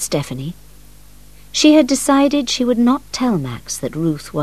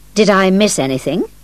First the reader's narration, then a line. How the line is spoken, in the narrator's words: Max asked